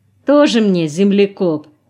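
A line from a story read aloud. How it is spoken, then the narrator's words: Mocking remark. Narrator (Russian): насмешливо бросил кто-то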